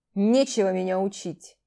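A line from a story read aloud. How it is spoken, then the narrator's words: Stubborn wolf snort. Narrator (Russian): неуступчиво хмыкнул волк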